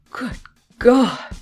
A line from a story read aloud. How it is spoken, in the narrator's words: she exclaimed